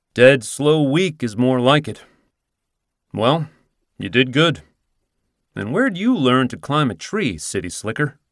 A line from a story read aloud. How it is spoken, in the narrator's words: He chuckles